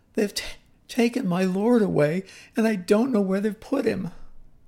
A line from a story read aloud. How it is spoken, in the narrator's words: in her tears and sobbing, said